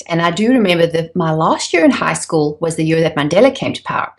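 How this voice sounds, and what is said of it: South African accent. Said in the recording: “I'm not from around these parts. I'm originally from South Africa, hence the funny accent.”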